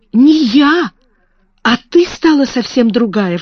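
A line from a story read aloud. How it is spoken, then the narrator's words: Exclaiming. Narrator (Russian): воскликнула она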